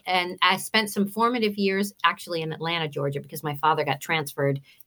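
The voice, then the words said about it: New Jersey accent. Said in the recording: “I hear you say daughter ... you're hearing my Jersey twang”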